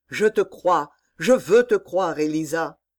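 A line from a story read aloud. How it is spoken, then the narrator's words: Exclamation. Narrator (French): s'écria Georges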